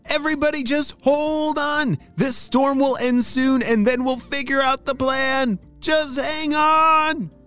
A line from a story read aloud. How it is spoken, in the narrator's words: shouted Apollo